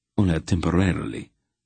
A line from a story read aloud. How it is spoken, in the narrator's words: the passerby said dryly